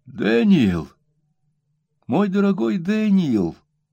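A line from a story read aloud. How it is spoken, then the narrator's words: Exclaimed. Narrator (Russian): воскликнула миссис Гаммидж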